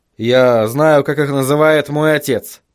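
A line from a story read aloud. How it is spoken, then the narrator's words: Muttering. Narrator (Russian): буркнул Вильям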